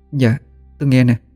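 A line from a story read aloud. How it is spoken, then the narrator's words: Woman, trembling. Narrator (Vietnamese): Cô run run nói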